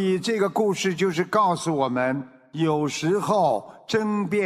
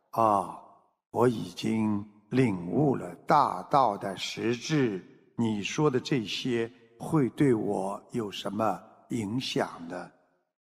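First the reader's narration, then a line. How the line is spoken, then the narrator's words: Calm, indifferent. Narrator (Chinese): 老子却淡淡的开口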